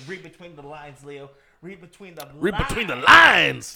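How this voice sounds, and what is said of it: Imitates another person's voice. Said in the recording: “doing a Jack Black impression.”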